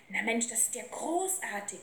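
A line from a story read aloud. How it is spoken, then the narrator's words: Boy calling out. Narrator (German): rief der Junge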